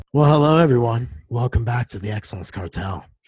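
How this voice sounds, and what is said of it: Quiet, deliberately sexy voice. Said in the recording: “Why are you so quiet ... Why are you like talking like that? ... That was a sexy voice ... my Blue Steel voice”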